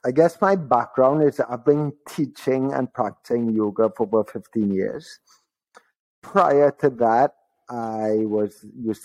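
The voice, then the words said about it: Trinidadian accent. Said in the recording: “listeners might realize I have a bit of an accent. ... I'm from Trinidad”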